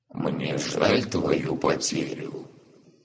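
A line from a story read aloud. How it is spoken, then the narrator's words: Hoarse rasp. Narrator (Russian): прохрипел Маавда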